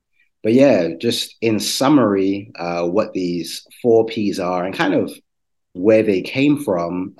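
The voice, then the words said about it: Nasal, congested voice. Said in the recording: “I'm also recovering from a sinus infection... If you're picking up on that nasally sound, that's what that is.”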